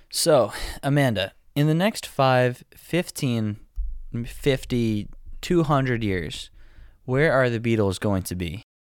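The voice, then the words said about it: Slow, soothing voice. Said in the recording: “Your voice is so soothing ... I need to slow down. I need to get in your groove”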